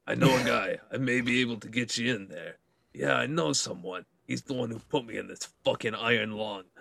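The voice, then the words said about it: Put-on heavy Brooklyn accent. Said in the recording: “a heavy Brooklyn, New York accent”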